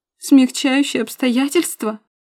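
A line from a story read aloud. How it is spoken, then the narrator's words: Sobbing harder. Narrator (Russian): Заходится в рыданиях пуще прежнего Милка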